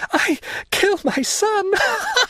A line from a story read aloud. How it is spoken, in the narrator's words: a frightful demoniac laugh finished the sentence, which was lost in a hoarse rattle